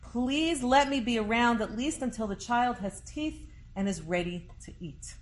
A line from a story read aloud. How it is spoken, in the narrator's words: young mother, she cried out, and she said